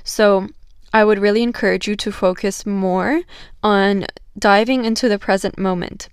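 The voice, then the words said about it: Crackly voice. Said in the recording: “my voice sounds a little bit crackly, it's because I'm starting to feel a bit of a cold.”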